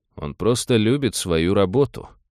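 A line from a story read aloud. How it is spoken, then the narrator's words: Gloomy joke. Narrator (Russian): мрачно пошутил Савин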